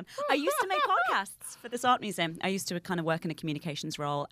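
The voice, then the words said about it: British accent, not posh. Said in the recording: “An art museum with that accent. Oh, but she's not posh”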